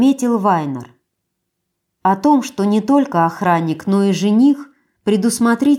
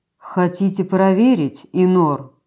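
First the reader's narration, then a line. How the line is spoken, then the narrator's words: Lazy, through teeth. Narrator (Russian): лениво процедил Штаден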